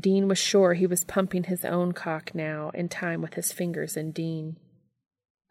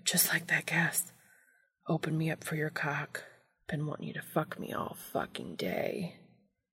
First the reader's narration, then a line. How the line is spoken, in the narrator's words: He started muttering